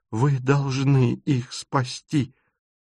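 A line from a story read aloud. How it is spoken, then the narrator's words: Holding back sobs. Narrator (Russian): повторяет, едва сдерживая рыдания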